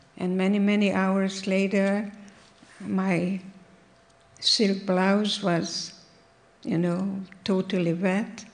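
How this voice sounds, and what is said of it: Hungarian accent. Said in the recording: “this woman speaking with a Hungarian accent”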